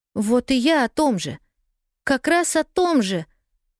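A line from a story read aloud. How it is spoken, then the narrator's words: Excited exclamation. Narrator (Russian): возбужденно воскликнула Полианна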